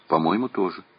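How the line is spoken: Plain. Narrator (Russian): ответил Веснин

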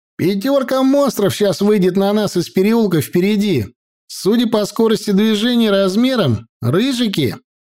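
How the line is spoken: Shout. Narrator (Russian): Михаил крикнул

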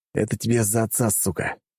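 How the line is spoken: Through gritted teeth. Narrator (Russian): процедил я сквозь зубы

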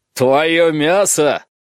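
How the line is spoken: Roaring. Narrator (Russian): взревел он

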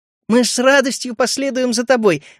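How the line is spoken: Exclaimed. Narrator (Russian): воскликнула Эмбер

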